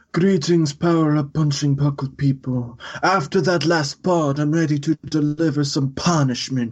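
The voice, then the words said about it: Mob boss character voice. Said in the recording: “do a mob boss voice.”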